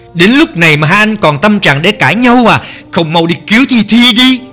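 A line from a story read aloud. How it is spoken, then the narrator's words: Loud intervening shout. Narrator (Vietnamese): Tần Cẩm phải hét to can hai người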